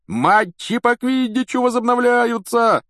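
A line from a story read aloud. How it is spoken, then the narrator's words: Yelling. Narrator (Russian): вопил Вуд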